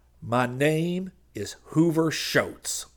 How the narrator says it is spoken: the man with his head in the door growled

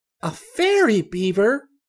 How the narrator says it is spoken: cried Chick gleefully

